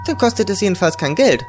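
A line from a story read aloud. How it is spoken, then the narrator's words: Cheerful. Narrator (German): sagte sie fröhlich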